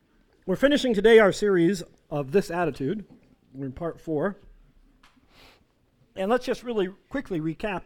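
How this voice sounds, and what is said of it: Worn-out, failing voice. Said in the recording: “my voice is going on expiration here”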